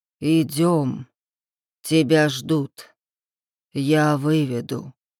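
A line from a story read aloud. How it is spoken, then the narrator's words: Low rumbling voice. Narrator (Russian): произнес он низким ракочущим голосом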